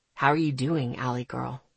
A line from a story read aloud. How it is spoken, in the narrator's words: He asked softly